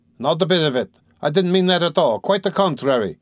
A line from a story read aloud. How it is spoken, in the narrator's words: shouted Razumihin, distressed